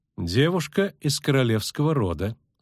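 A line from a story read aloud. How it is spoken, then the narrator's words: Calm. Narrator (Russian): спокойно ответила Филиппа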